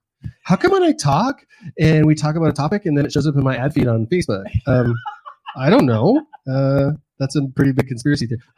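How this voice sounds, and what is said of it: Valley Girl teenage girl voice. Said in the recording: “I just did like a Valley Girl, teenage girl voice. That's not me at all. ... talking like a teenage girl”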